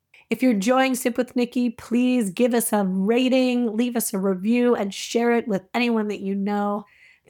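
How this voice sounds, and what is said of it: Raspy voice. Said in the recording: “putting up with my raspy radio voice today”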